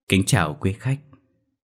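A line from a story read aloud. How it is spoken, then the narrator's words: Trembling voice. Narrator (Vietnamese): giọng nói run run cất lên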